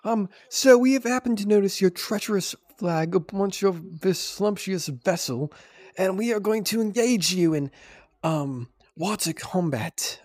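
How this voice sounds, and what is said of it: Put-on British accent, pompous speech. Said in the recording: “that was my operator impression ... Oh, they just talk like you do ... but like in a British accent.”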